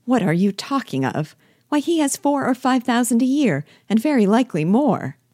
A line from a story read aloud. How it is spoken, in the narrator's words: cried his wife